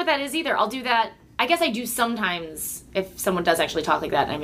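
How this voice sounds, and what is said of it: Usual voice. Nothing is said of it.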